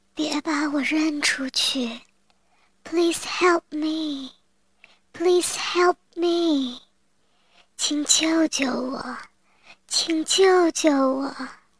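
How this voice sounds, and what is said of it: Weak, feeble voice. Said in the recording (Chinese): “用微弱的声音说”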